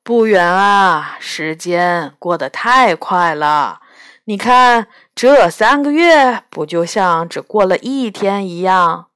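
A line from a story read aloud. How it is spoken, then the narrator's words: Sighing. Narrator (Chinese): 爸爸叹了口气说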